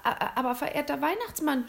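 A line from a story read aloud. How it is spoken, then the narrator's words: Nervous stammer. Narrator (German): stotterte William nervös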